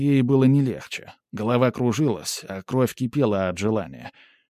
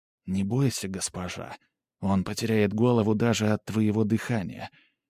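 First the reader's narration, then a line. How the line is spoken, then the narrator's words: Whisper. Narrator (Russian): Старшая из жриц шепнула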